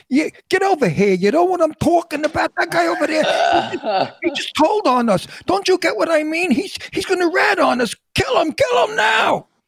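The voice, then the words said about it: Put-on Brooklyn gangster accent. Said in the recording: “I played Paulie from Brooklyn ... I really don't speak that. And here's how I did it ... without that, you don't have any kind of New York accent”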